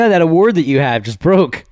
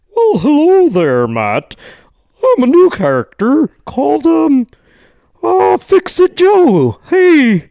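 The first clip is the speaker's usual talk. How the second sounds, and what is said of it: Silly character voice. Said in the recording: “Let me try to do a silly voice”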